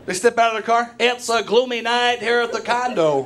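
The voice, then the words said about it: Baseball announcer voice. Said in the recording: “announcer voice ... I love that voice. I hope and pray to God that they come home from work and still use that voice.”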